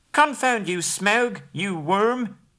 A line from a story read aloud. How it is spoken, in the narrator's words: squealed aloud